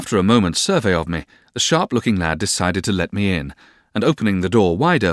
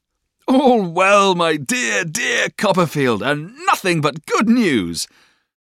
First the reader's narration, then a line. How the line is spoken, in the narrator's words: We cried with pleasure, both of us